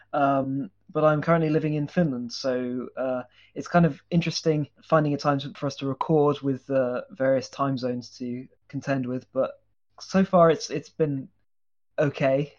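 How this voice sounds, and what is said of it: British English accent. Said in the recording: “as you can probably tell from my accent, I'm British English”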